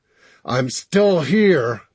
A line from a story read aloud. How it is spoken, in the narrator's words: Max grunted through clenched teeth